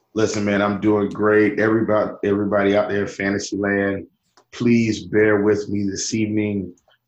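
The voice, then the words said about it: Hoarse, scratchy voice. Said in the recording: “I'm a little bit hoarse... my voice is just a little bit scratchy”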